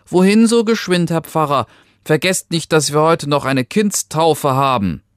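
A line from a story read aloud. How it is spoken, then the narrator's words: Calling out. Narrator (German): rief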